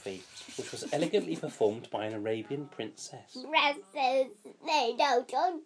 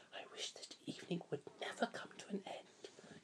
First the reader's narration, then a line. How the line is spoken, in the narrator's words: she whispered